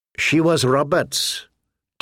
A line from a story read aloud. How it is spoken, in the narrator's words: Tyrion said bitterly